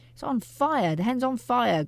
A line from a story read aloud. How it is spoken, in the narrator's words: Grandma yelled